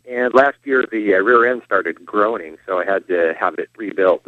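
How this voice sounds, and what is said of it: Speaks with a noticeable accent. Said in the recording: “Can you hear me with funny accent?”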